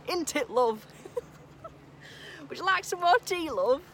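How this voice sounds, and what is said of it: Put-on Yorkshire accent. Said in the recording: “Nearly went into my Yorkshire accent then.”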